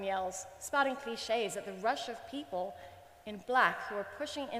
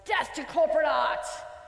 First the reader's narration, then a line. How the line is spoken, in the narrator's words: Emily, the woman who was dissing my art a moment ago, laughs scornfully